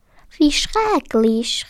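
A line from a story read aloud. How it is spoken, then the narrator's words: Called out. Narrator (German): rief Caro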